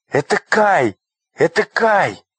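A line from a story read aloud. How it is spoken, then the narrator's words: Joyful exclamation. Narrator (Russian): радостно воскликнула Герда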